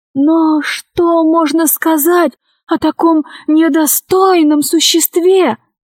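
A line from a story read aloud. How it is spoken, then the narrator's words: Lady exclaiming. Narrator (Russian): воскликнула дама Синдика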